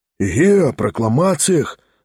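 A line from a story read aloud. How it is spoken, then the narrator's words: Crowd whispering. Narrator (Russian): зашептали в публике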